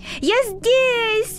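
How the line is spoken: Shout. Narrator (Russian): закричал он

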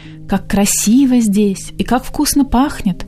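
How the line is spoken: Delighted exclamation. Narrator (Russian): воскликнула Цесса

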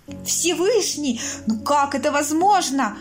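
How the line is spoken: Outraged exclamation. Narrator (Russian): Вне себя от возмущения воскликнул Джасар

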